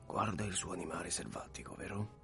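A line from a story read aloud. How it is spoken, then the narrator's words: Quiet question. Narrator (Italian): domandò sottovoce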